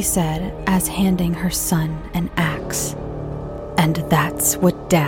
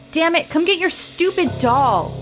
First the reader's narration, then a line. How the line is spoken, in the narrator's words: I yelled